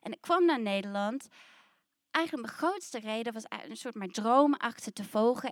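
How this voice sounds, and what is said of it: New Zealand accent in Dutch. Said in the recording (Dutch): “je hoort, ik heb een accent, ik kom uit Nieuw-Zeeland.”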